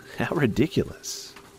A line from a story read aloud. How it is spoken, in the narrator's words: Connor said with a laugh